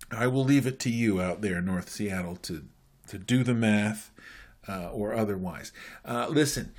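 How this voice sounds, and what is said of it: Usual voice. Nothing is said of it.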